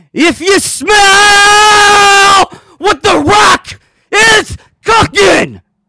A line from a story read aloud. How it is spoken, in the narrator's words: I scream it out